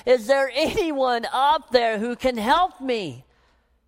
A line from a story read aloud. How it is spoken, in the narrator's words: he cried out to the heavens